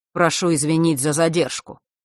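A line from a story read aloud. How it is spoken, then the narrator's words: Dry, curt. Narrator (Russian): сухо произнес сын Острогора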